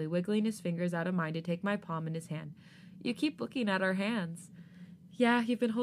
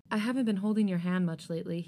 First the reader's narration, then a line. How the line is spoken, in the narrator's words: he sighs out suddenly, a tinge of guilt in his voice